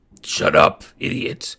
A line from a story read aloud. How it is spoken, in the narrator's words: Agrius growled